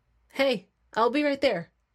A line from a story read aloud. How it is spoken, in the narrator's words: I said, my voice raised slightly